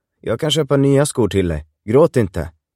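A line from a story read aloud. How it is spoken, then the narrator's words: Plain. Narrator (Swedish): sa Christian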